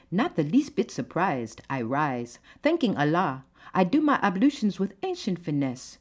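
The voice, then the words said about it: Poem read in put-on accent. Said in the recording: “it's not meant to offend anyone who may have this kind of accent.”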